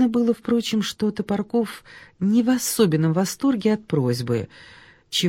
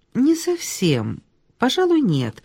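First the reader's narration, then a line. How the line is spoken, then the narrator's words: Plain. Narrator (Russian): сказала Ольга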